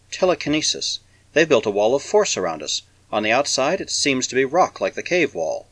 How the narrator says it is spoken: the girl whispered

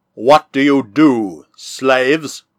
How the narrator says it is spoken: asked in a deep, cold voice, speaking in the Orofenan tongue

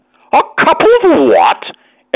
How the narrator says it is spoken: exclaimed Mr

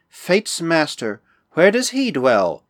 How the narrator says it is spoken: her mood changed, and she said with a sigh

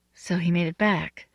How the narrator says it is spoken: she said quietly

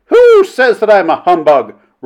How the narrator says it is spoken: roared Mrs

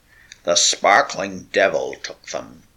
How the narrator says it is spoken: croaked Olaf Huldrickson

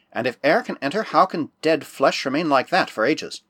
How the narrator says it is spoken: murmured Bickley

